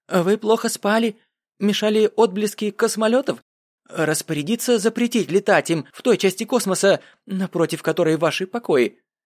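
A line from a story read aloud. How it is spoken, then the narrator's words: Nervous babbling. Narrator (Russian): Начал лепетать он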